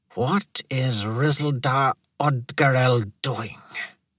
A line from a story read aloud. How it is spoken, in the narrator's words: The Fonto muttered